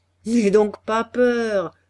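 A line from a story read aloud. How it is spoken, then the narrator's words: Laughing reply. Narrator (French): répondait le peintre en riant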